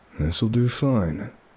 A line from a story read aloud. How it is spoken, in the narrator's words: whispered